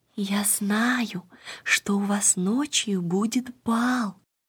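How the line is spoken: Child's whisper. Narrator (Russian): маленькая Ида шепнула им

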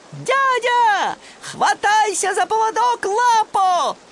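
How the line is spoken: Shouted. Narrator (Russian): крикнул

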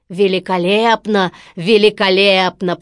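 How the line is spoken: Deep booming voice. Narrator (Russian): пробасил Стромболи

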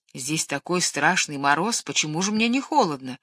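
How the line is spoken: Plain. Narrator (Russian): спросил старший

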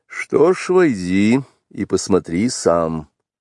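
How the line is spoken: Dry. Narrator (Russian): сухо сказал отец-волк

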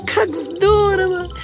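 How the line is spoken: Happy squeaky voice. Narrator (Russian): пропищал он счастливым голоском

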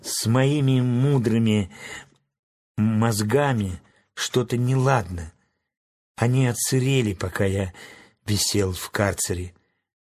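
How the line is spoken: Sad whisper. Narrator (Russian): Страшила грустно прошептал

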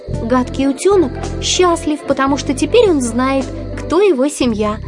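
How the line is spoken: Plain. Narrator (Russian): сказала

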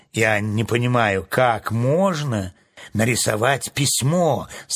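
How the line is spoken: Plain. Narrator (Russian): сказал железный дровосек

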